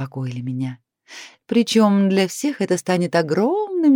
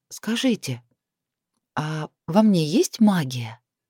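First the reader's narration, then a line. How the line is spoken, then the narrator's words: Disbelieving whisper. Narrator (Russian): Прошептала я, до конца не веря в свое освобождение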